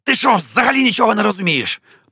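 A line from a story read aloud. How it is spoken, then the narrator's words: Hissing. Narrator (Ukrainian): прошипів Арлекін Петрович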